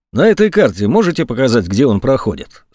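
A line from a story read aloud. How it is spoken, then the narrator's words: Plain. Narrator (Russian): спросил Егоров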